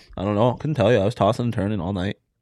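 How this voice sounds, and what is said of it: Noticeably Canadian-sounding accent. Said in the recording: “you sounded so Canadian there ... Why do you just slip into Canadian fits? ... That's spot on Canadian.”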